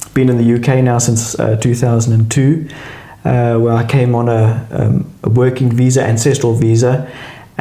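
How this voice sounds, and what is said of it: South African accent. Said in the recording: “from South Africa, I still haven't been able to shake the accent”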